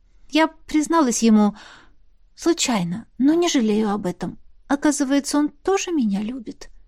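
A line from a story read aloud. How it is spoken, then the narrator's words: Whisper. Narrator (Russian): шепнула она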